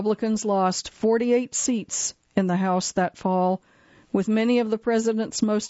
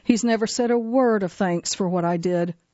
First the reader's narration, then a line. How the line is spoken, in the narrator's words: Sandman grumbled